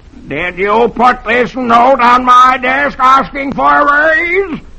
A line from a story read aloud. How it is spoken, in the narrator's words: Dithers snarls